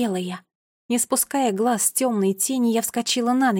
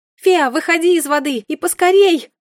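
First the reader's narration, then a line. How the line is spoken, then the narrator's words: Piercing shout. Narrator (Russian): пронзительно закричала я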